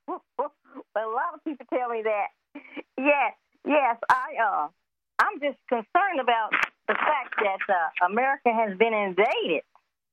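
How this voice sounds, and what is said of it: Alabama Southern US accent. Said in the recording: “that's a nice accent you have. I like that Alabama accent.”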